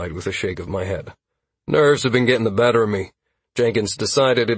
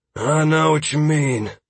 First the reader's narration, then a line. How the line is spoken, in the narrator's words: Drace said with a sigh